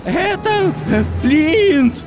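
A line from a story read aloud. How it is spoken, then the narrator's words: Exclaimed. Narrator (Russian): воскликнул Мэри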